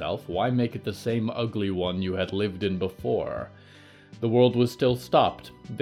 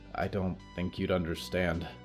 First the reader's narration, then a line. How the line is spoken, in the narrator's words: Danielle said quietly